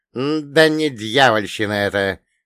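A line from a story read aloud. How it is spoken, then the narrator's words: Old man's snort. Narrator (Russian): хмыкнул дед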